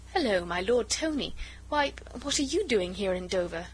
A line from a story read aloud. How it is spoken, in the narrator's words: she said merrily